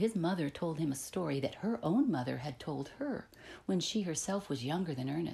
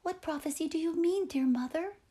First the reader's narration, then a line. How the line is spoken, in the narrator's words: eagerly inquired Ernest